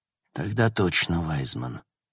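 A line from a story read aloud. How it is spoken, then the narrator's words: Sighed. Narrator (Russian): вздохнул Логан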